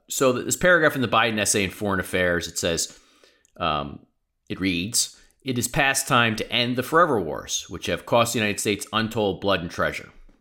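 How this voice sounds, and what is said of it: Fast-talking New York accent. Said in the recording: “I'm going to start talking faster and faster. I'm a fast talking New Yorker”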